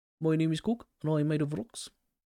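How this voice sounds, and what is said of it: Korg character voice. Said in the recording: “my Korg accent, my Korg impression”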